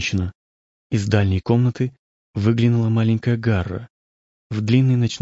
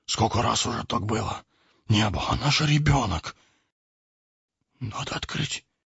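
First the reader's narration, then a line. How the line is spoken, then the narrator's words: Older youth whispering. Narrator (Russian): прошептал старший из парней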